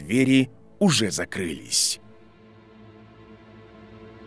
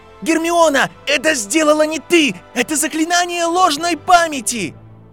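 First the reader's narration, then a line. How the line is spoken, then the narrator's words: Shouting. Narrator (Russian): И он закричал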